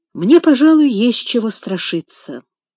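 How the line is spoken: Thoughtful. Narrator (Russian): задумчиво проговорил Сен-Клер

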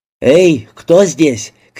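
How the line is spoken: Shouted. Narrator (Russian): крикнул мистер Джей

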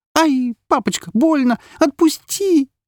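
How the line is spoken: Frightened girl screaming. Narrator (Russian): закричала напуганная девочка

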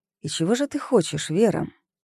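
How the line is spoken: Whisper in the ear. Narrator (Russian): прошептал

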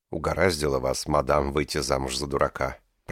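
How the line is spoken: Quiet speech. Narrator (Russian): проговорил Эмилио негромко

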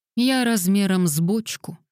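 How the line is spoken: Dejected reply. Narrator (Russian): уныло ответила Лилиан

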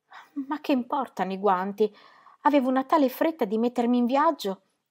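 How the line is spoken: Ecstatic, happy exclamation. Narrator (Italian): esclamò lanciandogli uno sguardo di estasiata felicità

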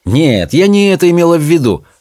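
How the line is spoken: Witch's irritated reply. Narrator (Russian): раздраженно отозвалась ведьма

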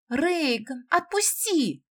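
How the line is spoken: Shouting, laughing merrily. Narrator (Russian): кричала девушка, заливисто хохоча

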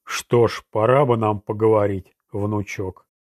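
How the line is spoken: Growling. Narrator (Russian): Ролан зарычал

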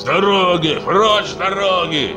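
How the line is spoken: Shouting. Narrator (Russian): закричал Каблан Наён

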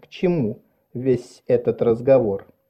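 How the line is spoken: Forced calm, reasonable. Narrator (Russian): Она сказала, стараясь, чтобы ее голос прозвучал спокойно и рассудительно

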